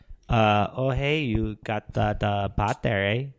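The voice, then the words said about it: Put-on Canadian accent. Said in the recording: “that's a wonderful Canadian accent.”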